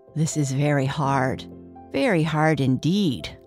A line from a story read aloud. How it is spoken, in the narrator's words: sighed the elephant